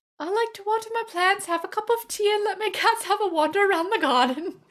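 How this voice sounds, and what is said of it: Bad put-on British accent. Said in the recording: “That was the worst British accent I've ever done in my entire life”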